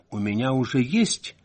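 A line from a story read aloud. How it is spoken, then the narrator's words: Calm reply. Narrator (Russian): спокойно ответила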